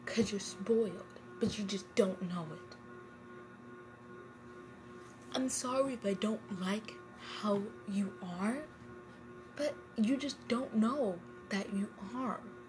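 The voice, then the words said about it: Angry voice. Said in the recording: “in an angry voice”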